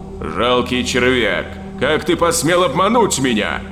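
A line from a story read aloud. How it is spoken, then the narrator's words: Roaring demon. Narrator (Russian): взревел архидемон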